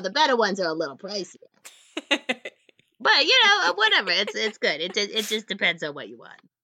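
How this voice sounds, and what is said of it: Character voice with New Jersey-like accent. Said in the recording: “are we gonna get the voice? ... It's like this accent. What kind of accent is this? It's like nothing. ... I think this is a New Jersey accent ... It's an Alphonse accent”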